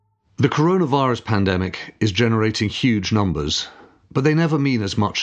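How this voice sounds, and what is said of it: Usual voice. Nothing is said of it.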